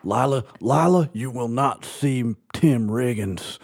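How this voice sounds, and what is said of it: Imitates a TV character's accent. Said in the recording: “my buddy Garrity accent, buddy. Buddy Garrity.”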